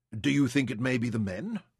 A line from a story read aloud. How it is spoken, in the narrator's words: Louisa asked eagerly